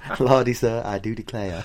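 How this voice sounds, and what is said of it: Put-on Southern American accent. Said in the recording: “American accent ... Pirate slash John Wayne ... Or Scarlett O'Hara ... That's good”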